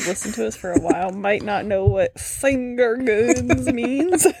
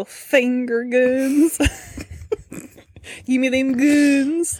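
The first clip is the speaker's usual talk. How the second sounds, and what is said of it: Bad exaggerated Southern accent. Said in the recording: “a very bad exaggerated southern accent”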